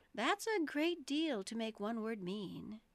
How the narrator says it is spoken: Alice said in a thoughtful tone

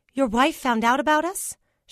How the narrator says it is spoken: Sheila asked anxiously

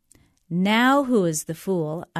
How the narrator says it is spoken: I answered

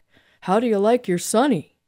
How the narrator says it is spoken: The man behind the wheel hollered out

